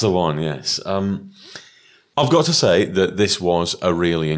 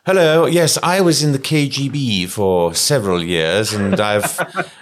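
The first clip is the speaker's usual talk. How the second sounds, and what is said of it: Posh RP voice, fake Russian. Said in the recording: “Pavla is so RP, it's not true... my accent has worn slightly thin... she's definitely not Russian”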